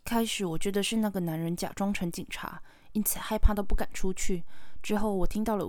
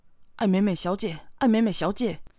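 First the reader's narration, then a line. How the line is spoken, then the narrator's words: Called out amid noise. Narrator (Chinese): 外面似乎有点吵闹，我听到自己的名字被呼喊着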